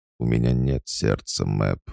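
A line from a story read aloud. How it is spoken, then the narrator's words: Calm retort. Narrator (Russian): спокойно парировала пустота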